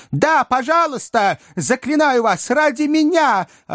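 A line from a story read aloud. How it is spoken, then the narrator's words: Shouting, deeply shaken. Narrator (Russian): орал мистер Уинкль, глубоко потрясенный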